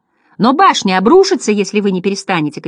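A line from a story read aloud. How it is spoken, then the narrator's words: Shouting. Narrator (Russian): кричал Бастиан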